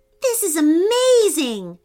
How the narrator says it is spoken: shouted Bennett over the buzz of the honeybees' wings

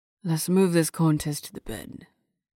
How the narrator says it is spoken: he muttered

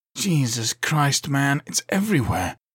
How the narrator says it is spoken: he breathed

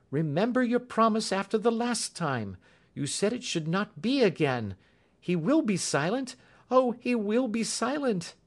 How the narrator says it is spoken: she cried in English

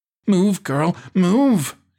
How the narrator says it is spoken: she barked

